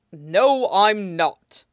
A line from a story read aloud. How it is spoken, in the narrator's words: Toshinori said firmly